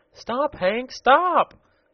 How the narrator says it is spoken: cried the girl

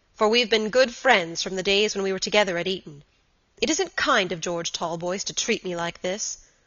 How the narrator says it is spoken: said Robert gravely

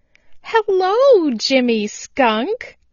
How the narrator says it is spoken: cried Chatterer the Red Squirrel

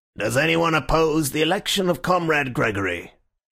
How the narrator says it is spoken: the chairman said in a colourless voice

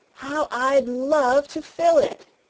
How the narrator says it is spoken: she exclaimed

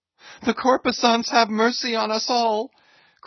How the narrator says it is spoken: cried Stubb again

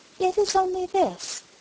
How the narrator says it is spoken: she said gently

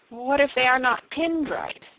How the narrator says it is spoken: quavered Elnora

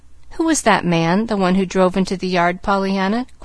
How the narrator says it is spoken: questioned the lady a little sharply

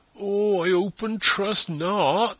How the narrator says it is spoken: moaned Christian

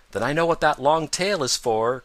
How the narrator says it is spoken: cried Peter

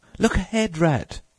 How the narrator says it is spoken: cried the mole suddenly

